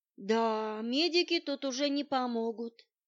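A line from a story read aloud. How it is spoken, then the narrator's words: Sad criminal confirming. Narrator (Russian): печально подтвердил преступник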